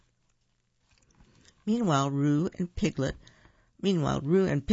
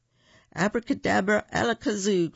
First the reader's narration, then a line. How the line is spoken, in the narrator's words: cried Roo